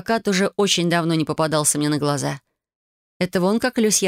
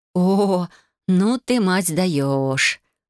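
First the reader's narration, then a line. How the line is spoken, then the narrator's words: Drawling. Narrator (Russian): протянула я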